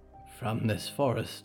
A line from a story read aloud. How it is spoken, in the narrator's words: Harrow whispered